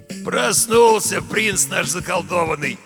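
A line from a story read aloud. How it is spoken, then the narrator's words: Glad, hoarse voice. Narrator (Russian): обрадованно произнес хриплый голос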